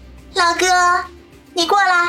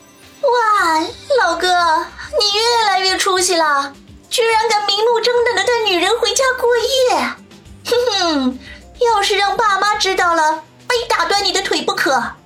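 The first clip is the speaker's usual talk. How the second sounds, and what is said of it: Loud, teasing voice. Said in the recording (Chinese): “怎么还那么大声？”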